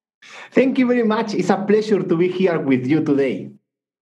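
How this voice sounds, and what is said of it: Beautiful foreign-accented voice. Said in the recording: “that beautiful voice you have in the accent. I've got a weakness for accents”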